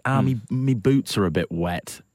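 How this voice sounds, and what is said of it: Caricatured imitation of co-star's accent. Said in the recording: “Are you doing my accent? ... Are you doing just me? A little me boots. ... It's like half of. ... He's moved into caricature.”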